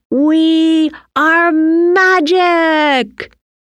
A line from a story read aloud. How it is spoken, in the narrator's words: Timmy shouted